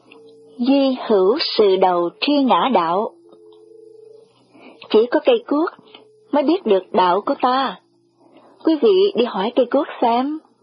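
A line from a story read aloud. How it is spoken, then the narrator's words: Smiling, quoting classics. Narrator (Vietnamese): Tôi mỉm cười, sổ nho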